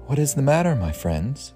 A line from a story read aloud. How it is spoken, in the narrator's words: She asked kindly